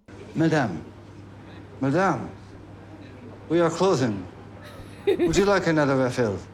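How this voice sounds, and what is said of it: Bad put-on French accent. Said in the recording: “a bad French accent”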